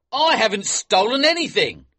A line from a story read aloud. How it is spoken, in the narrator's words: he shouted